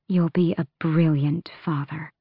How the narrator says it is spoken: she said softly

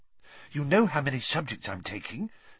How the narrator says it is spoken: said Hermione breathlessly

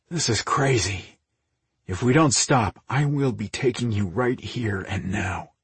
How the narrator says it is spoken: he muttered, as he fought to control his raging desire

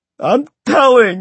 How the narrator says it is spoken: Richard had shrieked at the top of his lungs

